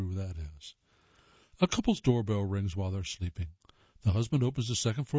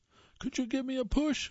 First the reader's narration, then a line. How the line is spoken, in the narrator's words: a voice cries